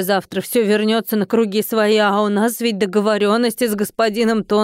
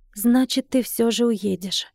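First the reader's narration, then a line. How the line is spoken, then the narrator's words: Sighing question. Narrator (Russian): вздохнув, спросила я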